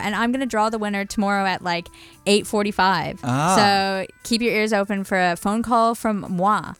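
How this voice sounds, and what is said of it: Canadian accent. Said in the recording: “a Canadian accent”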